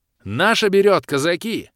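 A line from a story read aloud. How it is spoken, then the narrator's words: Shout. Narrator (Russian): выкрикнул Георгий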